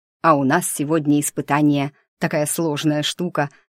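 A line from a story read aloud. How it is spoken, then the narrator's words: Starting to explain. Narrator (Russian): начал было объяснять он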